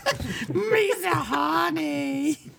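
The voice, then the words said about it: Cartoonish character voice. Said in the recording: “my Jar Jar impression”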